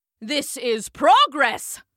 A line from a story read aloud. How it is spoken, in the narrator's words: shouted Professor C